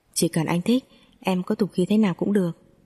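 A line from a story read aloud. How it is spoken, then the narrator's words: Loud laugh, ringing voice. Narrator (Vietnamese): Triệu Huy Thành cười to, giọng sang sảng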